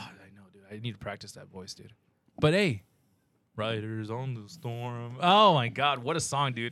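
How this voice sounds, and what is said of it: Usual voice. Nothing is said of it.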